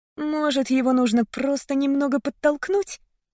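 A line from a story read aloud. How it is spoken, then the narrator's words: Timid suggestion. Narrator (Russian): робко предположила я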